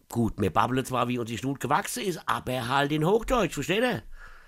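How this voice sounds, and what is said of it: Strong regional Mainz dialect. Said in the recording (German): “Dialekte ... Mir hier in Mainz ... lasst mich mit dem Play Dialekt in Ruhe”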